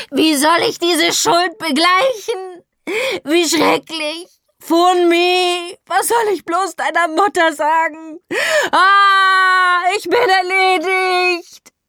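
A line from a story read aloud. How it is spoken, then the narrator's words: Distressed scream. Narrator (German): schrie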